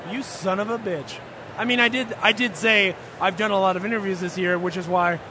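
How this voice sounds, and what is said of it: Hoarse, nearly lost voice. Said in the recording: “as you can hear from my voice, I don't have one anymore.”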